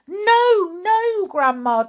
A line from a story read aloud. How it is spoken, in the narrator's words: George cried out